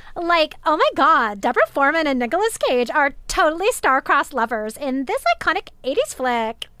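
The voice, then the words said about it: Put-on Valley Girl accent. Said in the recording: “I want to hear your Valley Girl ... That was better ... my great impression”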